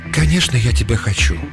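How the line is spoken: Whisper. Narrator (Russian): шепнула она

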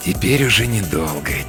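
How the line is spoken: Quiet speech. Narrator (Russian): тихо говорит он

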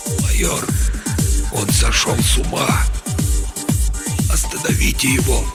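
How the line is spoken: Weak, barely audible, hoarse. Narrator (Russian): слабым, едва слышимым, хриплым голосом произнес

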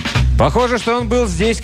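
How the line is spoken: Melodramatic shout. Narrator (Russian): крикнул я и, полностью отдавая себе отчет в мелодраматизме своего порыва

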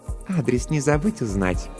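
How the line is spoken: Purring. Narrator (Russian): промурлыкала Жанна

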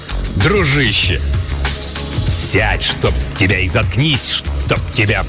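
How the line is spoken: Growling. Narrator (Russian): прорычал его агент по соцобеспечению

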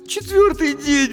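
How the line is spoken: Sobbing. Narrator (Russian): всхлипнула Дженни

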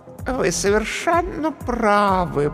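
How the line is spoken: Cooing. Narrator (Russian): проворковала комедия

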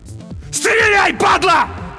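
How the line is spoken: Desperate scream. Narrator (Russian): заорал на смерть Олесь

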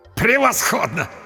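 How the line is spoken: Hysterical laughter. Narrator (Russian): Истерично расхохотался папа Артур

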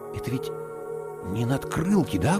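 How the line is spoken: Whispered. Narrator (Russian): прошептал я

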